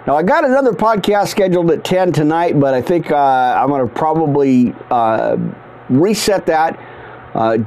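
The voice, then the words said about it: Strained, worn-out voice. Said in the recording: “give my voice some extra resting spot, some rest ... it's no good here trying to strain. And it's been a continual strain for weeks now.”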